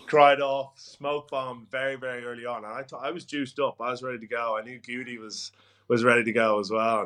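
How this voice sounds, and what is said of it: Hoarse voice. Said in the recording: “Your hoarseness, is explaining it all to me... you've got a 7-day hangover”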